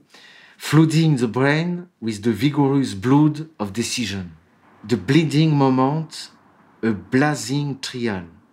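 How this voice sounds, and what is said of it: English spoken with a French accent. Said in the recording (French): “pardon pour mon accent ... je suis pas très doué pour les langues”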